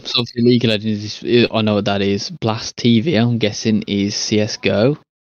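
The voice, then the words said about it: Hoarse, strained voice. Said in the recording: “Oh my god, I'm losing my voice.”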